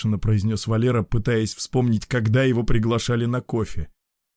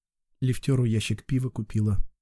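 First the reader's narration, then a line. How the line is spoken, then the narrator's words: Quiet reply. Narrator (Russian): ответила Катя тихо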